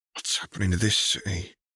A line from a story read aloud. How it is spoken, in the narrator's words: Tom mumbled